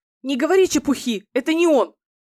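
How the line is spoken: Harsh voice. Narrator (Russian): жестким голосом ответила Фэй

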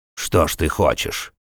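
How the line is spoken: Junk dealer's scoffing grunt. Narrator (Russian): хмыкнул старьевщик

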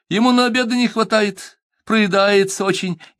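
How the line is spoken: Laughing almost cheerfully. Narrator (Russian): засмеялась генеральша почти весело

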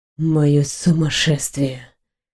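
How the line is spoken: Moaning. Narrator (Russian): Я застонала

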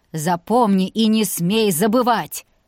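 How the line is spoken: Old man barking. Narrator (Russian): рявкнул дед

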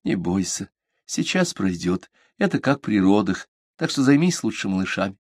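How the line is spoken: Soothing whisper, mother. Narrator (Russian): Мама, пытаясь утешить, прошептала

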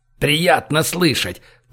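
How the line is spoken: Growled. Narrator (Russian): прорычал

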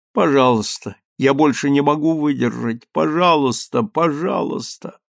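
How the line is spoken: Exhausted moan. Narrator (Russian): в изнеможении простонала

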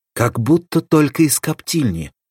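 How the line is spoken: Delighted exclamation. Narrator (Russian): воскликнул в восторге

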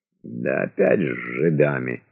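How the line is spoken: Grumbling. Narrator (Russian): проворчал Трепов

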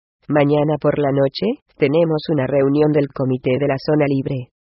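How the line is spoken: Plain. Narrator (Spanish): dijo Su-gyeon

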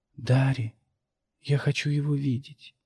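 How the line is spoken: Indistinct distant whisper. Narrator (Russian): донесся неясный шепот

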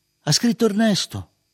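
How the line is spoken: Father's plaintive shout. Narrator (Italian): mi gridò ancora mio padre, lamentoso

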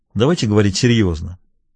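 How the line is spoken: Dry. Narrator (Russian): сказал он сухо

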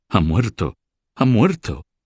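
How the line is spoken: Exclaiming. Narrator (Spanish): se arrojaron una en brazos de la otra, exclamando

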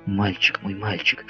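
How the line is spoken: Whisper. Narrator (Russian): шептала Элен

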